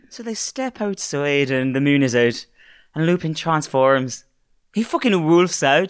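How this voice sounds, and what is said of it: Put-on Irish accent. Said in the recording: “I just might try and do my Irish one again.”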